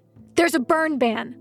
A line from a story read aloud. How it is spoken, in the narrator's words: Lou barks back